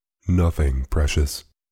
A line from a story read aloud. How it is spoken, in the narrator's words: she said